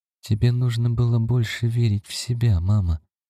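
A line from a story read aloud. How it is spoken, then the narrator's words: Soft reply. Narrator (Russian): мягко отозвалась Карлотта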